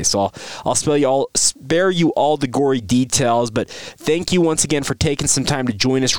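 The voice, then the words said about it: Slightly off, sick-sounding voice. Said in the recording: “My voice sounds a little wonky. I've been dealing with a head cold. It's kind of moved into my uh, chest cavity slash throat ... apologies for my voice if it sounds a little off”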